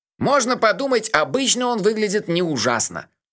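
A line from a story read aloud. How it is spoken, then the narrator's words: Cheerful. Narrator (Russian): весело сказал Мелифара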